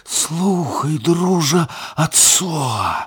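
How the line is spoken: Fox whispering. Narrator (Belarusian): зашаптаў ліс

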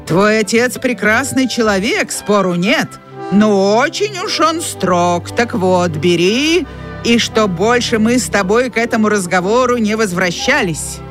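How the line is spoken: Menacing. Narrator (Russian): грозно говорил Джеральд

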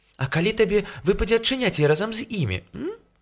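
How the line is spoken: Sly smile. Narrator (Belarusian): Бася хітра усміхнулася

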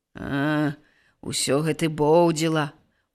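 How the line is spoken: Sighing young man. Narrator (Belarusian): уздыхаў малады пастух

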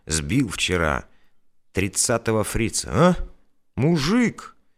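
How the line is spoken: Enthusiastic exclamation. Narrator (Russian): восторженно воскликнул

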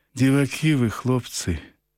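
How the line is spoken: Sad smiling voice. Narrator (Ukrainian): Знов сумно усміхається Люся

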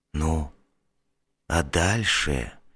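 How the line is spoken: Whispered question. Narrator (Russian): шепотом осведомился я

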